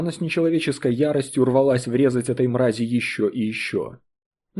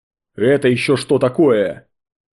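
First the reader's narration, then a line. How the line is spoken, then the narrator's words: Yelling. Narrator (Russian): Какой-то неприятный тип уже орал на нее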